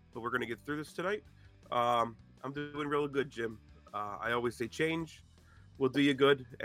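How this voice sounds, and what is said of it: Sick, rough-sounding voice. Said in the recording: “I'm a little under the weather, so pardon my voice”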